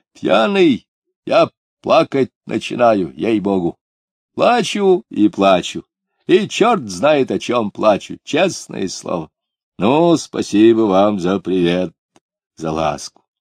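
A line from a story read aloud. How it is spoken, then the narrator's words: Loud, laughing. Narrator (Russian): Он снова, но уже громко рассмеялся и сказал тоже очень громко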